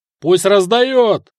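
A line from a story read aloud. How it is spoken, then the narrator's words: Shout from crowd. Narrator (Russian): заорал кто-то в толпе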